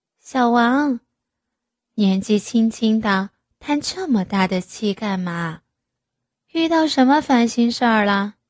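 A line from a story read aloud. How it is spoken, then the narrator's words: Gentle question. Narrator (Chinese): 岳母听到李志威的叹息，温柔的问道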